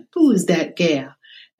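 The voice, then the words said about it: Deep Southern accent. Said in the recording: “with a deep Southern accent.”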